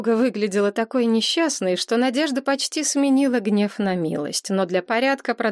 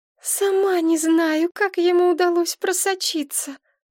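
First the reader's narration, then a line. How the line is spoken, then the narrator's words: Sighing. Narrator (Russian): вздохнула Машка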